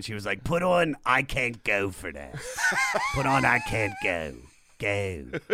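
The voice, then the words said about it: Imitated Maryland accent. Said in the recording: “My mom has such a Maryland accent.”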